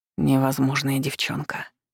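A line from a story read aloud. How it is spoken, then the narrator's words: Hoarse. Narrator (Russian): прохрипел он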